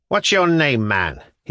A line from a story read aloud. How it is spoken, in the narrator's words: asked, speaking in a harsh, jerky voice, as if he wanted to overawe us